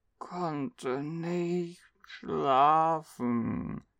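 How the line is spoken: Sleepy child mumbling. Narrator (German): murmelte die 5-Jährige nur, während sie mit halb geschlossenen Augen auf ihn zuwankte

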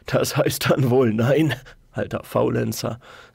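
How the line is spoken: Soft laugh. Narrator (German): lachte Hashim leise

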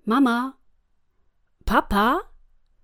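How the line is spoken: Calling out. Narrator (German): rief Jakob

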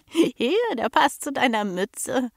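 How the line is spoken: Giggling. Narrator (German): kicherte

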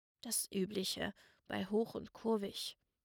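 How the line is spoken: Quiet grumbling. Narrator (German): murrte er leise

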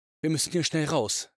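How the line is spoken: Strained, somewhat fearful. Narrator (German): sprach er angestrengt und etwas ängstlich

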